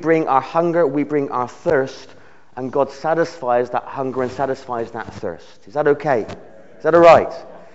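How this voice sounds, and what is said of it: Speaker's own non-American regional accent. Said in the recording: “Have you got used to my accent yet? This is the accent of heaven ... Not your American twangs or your Canadian twangs. Not that kind of deep, husky Scottish kind of tone.”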